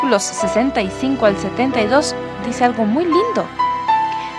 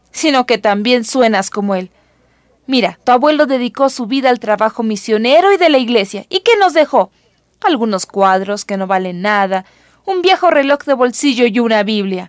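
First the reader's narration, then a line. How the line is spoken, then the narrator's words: Father grumbling. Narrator (Spanish): dijo papá gruñendo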